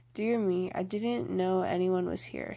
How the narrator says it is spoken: stammered Jo

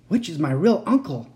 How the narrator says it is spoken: I gasped

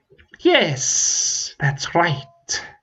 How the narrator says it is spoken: the dragon hissed

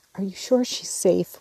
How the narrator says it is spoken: whispered Jo, looking remorsefully

